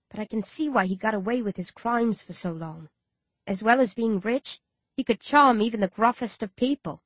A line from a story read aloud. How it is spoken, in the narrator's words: Ashtat says softly